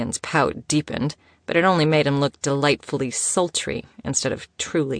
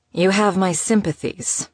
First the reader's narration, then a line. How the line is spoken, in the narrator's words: she returned dryly